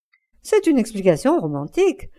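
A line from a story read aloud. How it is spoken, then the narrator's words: Laughing exclamation. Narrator (French): s'exclama en riant l'hôtesse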